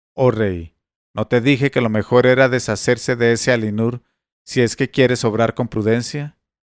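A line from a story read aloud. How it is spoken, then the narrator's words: Exclaimed. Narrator (Spanish): Sawi exclamó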